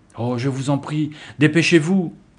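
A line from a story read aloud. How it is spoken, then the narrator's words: Exclaimed, girl. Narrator (French): s'écria l'une des filles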